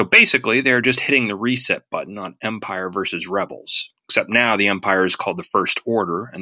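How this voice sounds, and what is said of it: Usual voice. Nothing is said of it.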